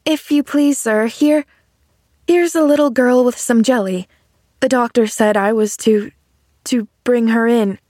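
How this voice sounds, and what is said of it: Frightened, timid voice. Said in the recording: “in a frightened voice”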